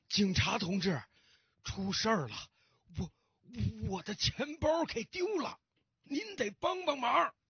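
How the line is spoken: Hurried, breathless old man. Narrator (Chinese): 老先生急急忙忙的喘着粗气对警察说

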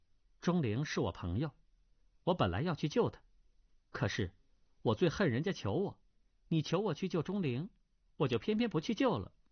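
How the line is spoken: Cold. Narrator (Chinese): 那女郎冷冷的道

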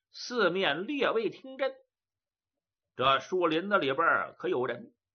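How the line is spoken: Loud. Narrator (Chinese): 谢春大声说道

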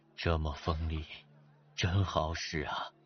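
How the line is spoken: Amazed exclamation. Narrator (Chinese): 范蠡不禁惊叹道

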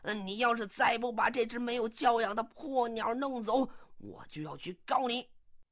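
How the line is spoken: Angry yelling. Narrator (Chinese): 这个波莎终于是忍无可忍了 怒气冲冲的就嚷到了

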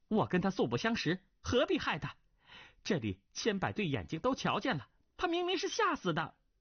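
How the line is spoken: Shocked, angry young man. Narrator (Chinese): 桑飞鸿年岁尚轻，不懂对方嫁祸于己的用意，惊怒之下便道

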